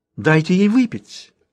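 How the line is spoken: Exclaimed. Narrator (Russian): воскликнула она

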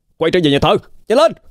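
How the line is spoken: Loud shout. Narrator (Vietnamese): Vũ hét lớn với đám người ở trên ghe ông Chính

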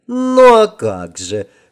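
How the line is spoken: Old woman's chuckle from afar. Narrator (Russian): хохотнула от порога вторая старушка

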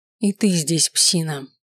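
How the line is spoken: Muttering. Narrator (Russian): пробормотал я

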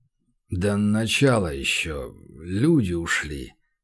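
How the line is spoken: Mutter. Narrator (Russian): пробормотал Леха

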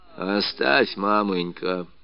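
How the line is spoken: Dry remark. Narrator (Russian): сухо заметил Кожин

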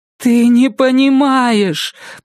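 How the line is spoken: Moaning. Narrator (Russian): простонала она

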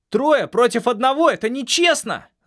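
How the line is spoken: Yelled. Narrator (Russian): заорал на парней Ланда

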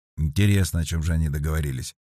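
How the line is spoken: Muttered. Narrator (Russian): пробормотал Сергей

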